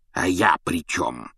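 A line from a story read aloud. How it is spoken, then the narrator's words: Hissing uncle. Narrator (Russian): зашипел дядя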